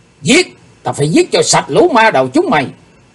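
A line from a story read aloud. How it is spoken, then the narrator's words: Shouted. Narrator (Vietnamese): tiếng hét đó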